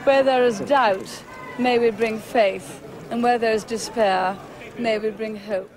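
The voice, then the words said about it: Warm, polished posh English accent. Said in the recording (French): “elle a une voix très chaleureuse ... son magnifique accent très travaillé de Oxbridge ... Sa voix est un peu sexy”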